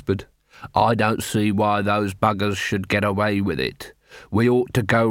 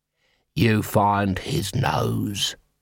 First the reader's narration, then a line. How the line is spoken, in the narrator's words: he hissed